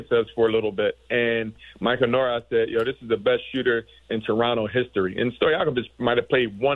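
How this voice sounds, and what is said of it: Usual voice. Nothing is said of it.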